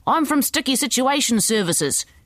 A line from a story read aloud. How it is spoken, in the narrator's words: she yelled